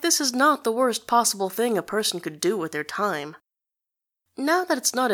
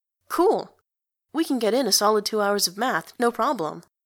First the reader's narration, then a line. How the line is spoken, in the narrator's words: says Jolie, cheerfully